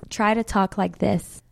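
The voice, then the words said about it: Put-on American accent. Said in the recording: “And I can be American too... she's so much better than me”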